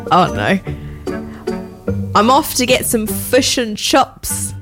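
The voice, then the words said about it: Attempted New Zealand accent, sounds Australian. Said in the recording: “New Zealand. ... I don't think so. It sounds very Australian. That's just saying words wrong.”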